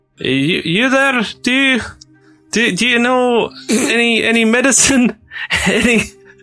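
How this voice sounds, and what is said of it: Put-on character accent. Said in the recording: “running straight into the first accent I found without giving it any time... now I'm stuck with it”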